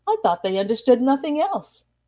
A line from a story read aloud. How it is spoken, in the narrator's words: exclaimed Daisy